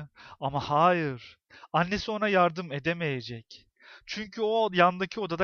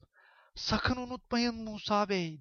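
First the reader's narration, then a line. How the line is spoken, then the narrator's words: Whispered. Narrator (Turkish): diye fısıldadı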